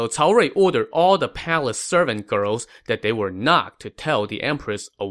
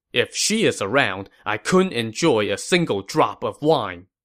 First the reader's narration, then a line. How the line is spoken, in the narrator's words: Cao Rui scoffed